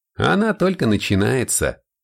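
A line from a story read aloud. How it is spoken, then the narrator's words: Snorting. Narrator (Russian): хмыкнул Макнаб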